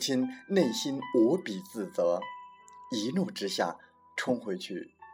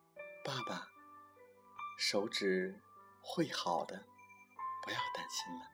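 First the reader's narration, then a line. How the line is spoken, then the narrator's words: Soft, gentle. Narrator (Chinese): 儿子轻声的说道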